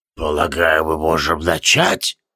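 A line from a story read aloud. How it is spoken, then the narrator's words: Creaky rasp. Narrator (Russian): проскрипел Тивилдорм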